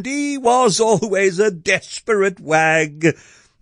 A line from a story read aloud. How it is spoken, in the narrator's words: the butcher exclaimed